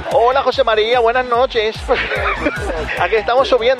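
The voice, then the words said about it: Put-on Mexican Spanish accent. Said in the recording (Spanish): “acento mexicano”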